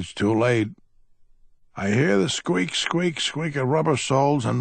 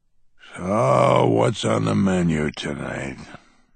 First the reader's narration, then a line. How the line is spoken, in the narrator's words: I grumble